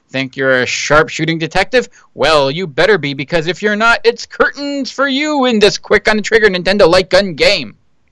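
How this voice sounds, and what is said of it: Nasal announcer voice. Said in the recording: “That was a good announcer voice there ... If you like nasally, yeah.”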